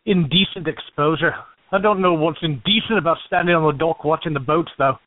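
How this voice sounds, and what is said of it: Irish accent. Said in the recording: “Irish. That's the accent, isn't it?”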